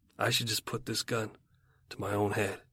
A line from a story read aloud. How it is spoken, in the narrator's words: He muttering